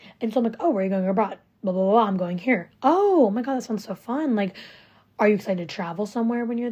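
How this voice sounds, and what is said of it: Usual voice. Nothing is said of it.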